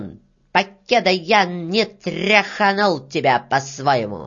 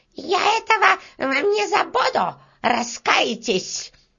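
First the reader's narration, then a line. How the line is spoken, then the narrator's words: Shout while running. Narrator (Russian): На бегу она обернулась, крикнула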